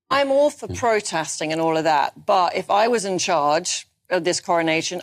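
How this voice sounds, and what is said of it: Very posh English accent. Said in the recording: “probably with a very posh accent.”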